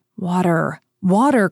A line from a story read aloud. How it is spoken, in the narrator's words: cried D'Artagnan